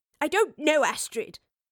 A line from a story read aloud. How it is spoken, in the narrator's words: The professor snapped in sudden anger